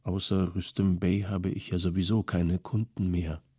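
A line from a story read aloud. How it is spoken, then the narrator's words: Quiet, apologetic. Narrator (German): sagte er leise, als wolle er sein Opfer damit entschuldigen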